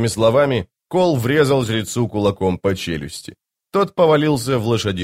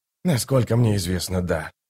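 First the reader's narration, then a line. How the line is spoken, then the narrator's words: Muttered. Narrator (Russian): пробормотал Рад Престол Тени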